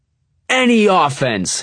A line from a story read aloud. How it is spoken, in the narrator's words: he yells